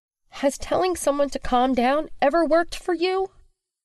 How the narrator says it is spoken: Willow blurts out through clenched teeth

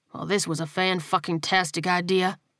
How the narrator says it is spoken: he muttered to himself

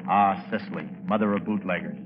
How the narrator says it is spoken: I couldn't help murmuring

